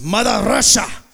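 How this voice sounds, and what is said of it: Made-up Russian accent. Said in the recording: “speak Russian ... I don't even know if that's the accent. I just made it up right now.”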